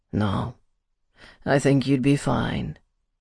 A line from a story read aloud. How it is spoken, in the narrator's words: he said in a low, sultry voice